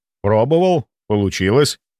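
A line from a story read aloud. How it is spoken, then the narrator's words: Calm answer. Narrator (Russian): ответил спокойно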